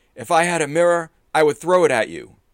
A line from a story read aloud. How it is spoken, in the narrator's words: shouting